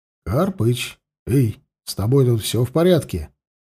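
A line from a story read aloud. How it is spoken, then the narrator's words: Quiet call. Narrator (Russian): Негромко позвал его Алексей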